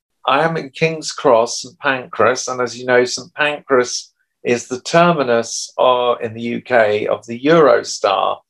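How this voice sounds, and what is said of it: A beautiful accent. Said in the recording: “I love your beautiful accent.”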